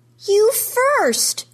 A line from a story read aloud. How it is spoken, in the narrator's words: she yells